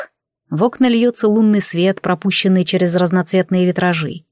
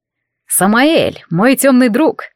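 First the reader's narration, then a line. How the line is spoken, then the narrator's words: Cheerful, unnaturally loud. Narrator (Russian): раздался веселый голос в абсолютной тишине, прозвучавший неестественно громко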